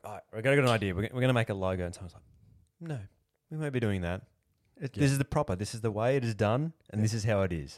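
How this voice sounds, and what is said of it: Poor put-on Liverpool accent, sounding Irish. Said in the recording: “That's a terrible Liverpool accent. ... I don't even know what that accent was. ... It was like weirdly Irish.”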